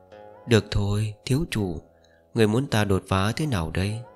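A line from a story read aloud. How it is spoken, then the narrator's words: Amused, playful whisper. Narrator (Vietnamese): Nê Hồ Ly khẽ che miệng cười, càng thêm thú vị, khẽ thì thầm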